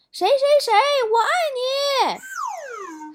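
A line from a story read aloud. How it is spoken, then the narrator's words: Young man shouting loudly. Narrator (Chinese): 有个男生高喊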